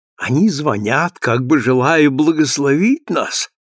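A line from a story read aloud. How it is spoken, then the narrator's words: Plain. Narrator (Russian): ответил Тоби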